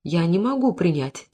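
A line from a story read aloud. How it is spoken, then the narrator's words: Quiet. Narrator (Russian): тихо повторила Сара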